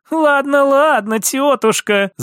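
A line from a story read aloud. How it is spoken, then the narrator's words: Laughing. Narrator (Russian): засмеялась София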